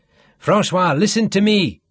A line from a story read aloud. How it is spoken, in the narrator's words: Sean shouted him down